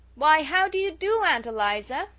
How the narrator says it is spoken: she said loudly

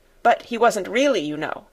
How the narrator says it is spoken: put in Janet hastily

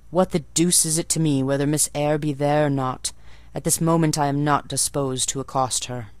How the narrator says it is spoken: he said, and there was something in the forced, stiff bow, in the impatient yet formal tone

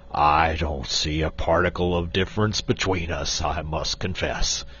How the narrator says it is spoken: retorted Quox gruffly

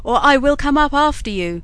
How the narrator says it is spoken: shouted Bluebeard

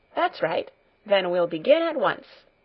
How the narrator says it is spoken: she said cheerfully

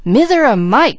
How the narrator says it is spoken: cried Mickey

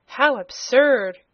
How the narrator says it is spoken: cried Cobalt

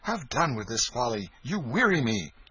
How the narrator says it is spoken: The king said impatiently

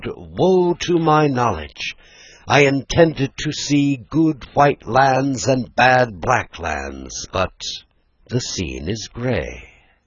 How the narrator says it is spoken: When the prophet, a complacent fat man, arrived at the mountain top, he cried

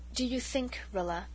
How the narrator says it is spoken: Mother said quietly, far too quietly

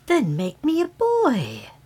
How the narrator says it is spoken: exclaimed the fairy eagerly

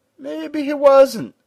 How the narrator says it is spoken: said the giant in a cooing voice

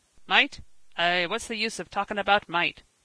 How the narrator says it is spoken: growled Uncle Kimble

